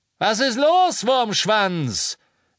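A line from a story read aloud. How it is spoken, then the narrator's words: Calling from above. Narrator (German): rief Lucius Malfoy von oben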